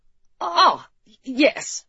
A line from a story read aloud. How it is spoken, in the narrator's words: Edward stammered